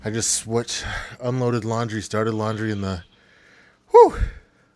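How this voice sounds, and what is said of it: Out of breath, panting. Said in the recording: “I'm out of breath. ... It's cold and I'm out of breath.”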